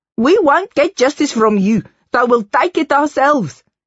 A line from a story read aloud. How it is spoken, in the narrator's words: Jen Shinan cried